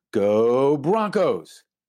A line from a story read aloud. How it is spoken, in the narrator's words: The kids yell